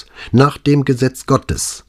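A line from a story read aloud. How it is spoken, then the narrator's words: Sharp, superior. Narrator (German): antwortete sie scharf, als verstünde sie von solchen Dingen schließlich mehr als er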